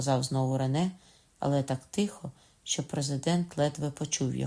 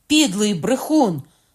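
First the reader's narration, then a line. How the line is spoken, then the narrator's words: Indignant shout. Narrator (Ukrainian): крикнув обурений Кокона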